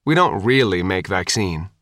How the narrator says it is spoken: Sophia said, sighing

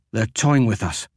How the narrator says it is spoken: Devadas gasped

